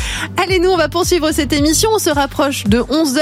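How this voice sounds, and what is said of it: Usual voice. Nothing is said of it.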